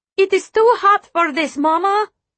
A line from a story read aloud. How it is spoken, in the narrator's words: Anya whines